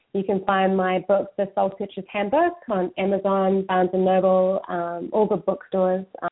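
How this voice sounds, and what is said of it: New Zealand accent. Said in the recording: “my New Zealand accent.”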